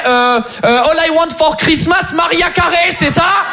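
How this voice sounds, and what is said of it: Fake French accent on English. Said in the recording (French): “je vais devoir falsifier un accent français”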